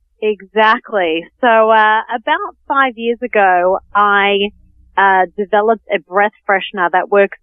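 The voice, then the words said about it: Australian accent. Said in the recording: “Melbourne, Australia... I love the accent. Um, don't ever lose it”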